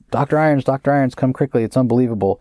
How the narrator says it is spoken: he's yelling

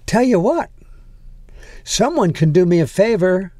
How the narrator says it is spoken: she said brightly

